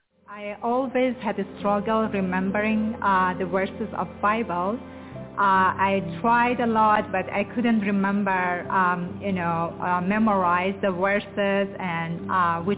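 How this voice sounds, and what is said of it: Hard-to-follow foreign accent. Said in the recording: “You might have a difficult time following her accent”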